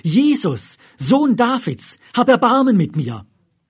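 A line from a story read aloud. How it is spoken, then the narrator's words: Called out. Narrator (German): rief er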